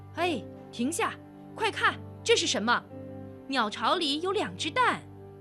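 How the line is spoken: Loud shout. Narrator (Chinese): 个子最高的男人停住脚，大声喊道

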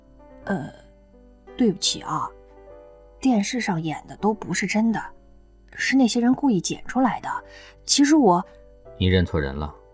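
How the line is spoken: Low, cautious explaining. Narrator (Chinese): 压低声音，小心翼翼地解释着

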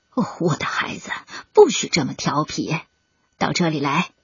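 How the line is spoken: Low voice. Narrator (Chinese): 梭子鱼叔叔低声说道

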